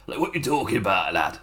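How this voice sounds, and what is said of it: Put-on Northern English accent. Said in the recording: “it's Northern Yakuza ... my Northern Yakuza ... do the voice correctly ... It just helps me tighten my voice a bit”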